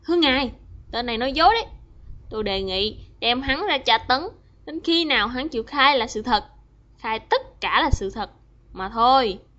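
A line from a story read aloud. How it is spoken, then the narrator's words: Angry. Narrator (Vietnamese): Ngài cà chua tức giận nói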